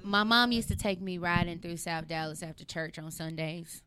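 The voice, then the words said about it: Southern country twang. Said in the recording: “I felt the country twang. ... I'm gonna say the South.”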